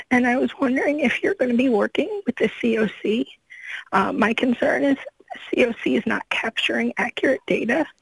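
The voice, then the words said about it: Hoarse, weakening voice. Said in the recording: “please excuse me, I'm losing my voice”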